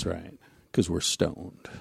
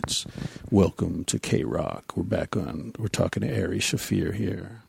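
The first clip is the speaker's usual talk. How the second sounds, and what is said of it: Mellow late-night FM DJ voice. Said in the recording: “that late night DJ voice ... that FM ... clearly we're not going to yell”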